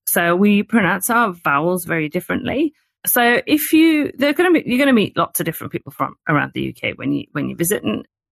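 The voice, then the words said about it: Northern English Geordie accent. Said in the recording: “I'm from the north, so you could probably hear that my vowel sounds are, I say bath ... So I'm a Geordie, because I'm from the Northeast”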